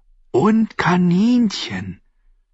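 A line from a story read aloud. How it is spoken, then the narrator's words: Whisper. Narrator (German): flüsterte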